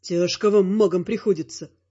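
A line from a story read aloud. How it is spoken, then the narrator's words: Wry snort. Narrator (Russian): хмыкнул я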